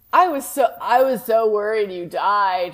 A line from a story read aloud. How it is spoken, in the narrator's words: moaned Vampire